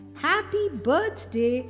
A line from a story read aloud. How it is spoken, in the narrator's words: as loudly as they could